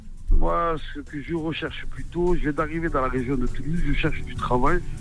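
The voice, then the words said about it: Strong southern French accent. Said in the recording (French): “j'adore cet accent... à Nîmes, on a aussi un accent comme ça, prononcé”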